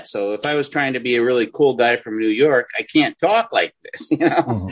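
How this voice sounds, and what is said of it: Nasally accent. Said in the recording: “my accent is the first thing that people really kind of hear ... it hits you right off the bat ... a guy that just has a nasally accent”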